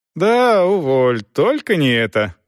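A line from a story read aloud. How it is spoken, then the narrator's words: Laughing. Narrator (Russian): рассмеялась Дорс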